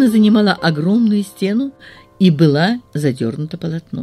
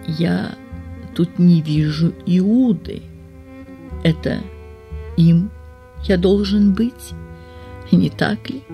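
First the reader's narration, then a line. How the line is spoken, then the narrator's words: Quiet. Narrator (Russian): тихо сказал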